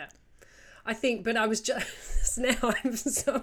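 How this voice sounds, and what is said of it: Usual voice. Nothing is said of it.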